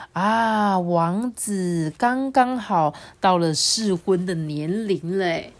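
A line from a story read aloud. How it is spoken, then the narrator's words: Happy king. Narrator (Chinese): 慢郎中国王很高兴的说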